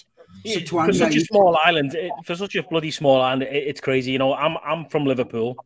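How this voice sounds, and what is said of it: Scouse Liverpool English accent. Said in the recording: “I'm a Scouser, so my accent is Scouser.”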